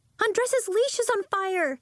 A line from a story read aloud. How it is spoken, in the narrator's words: she cried